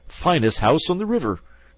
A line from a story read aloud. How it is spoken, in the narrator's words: cried Toad boisterously